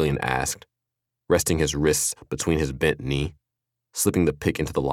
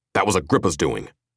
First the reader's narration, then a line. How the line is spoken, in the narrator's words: Mustache snarled